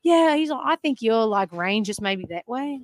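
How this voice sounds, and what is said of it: Australian accent imitating Jason Day. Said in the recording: “Really great Australian accent”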